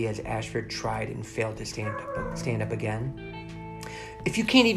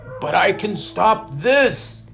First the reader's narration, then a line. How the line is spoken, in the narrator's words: cried Ashford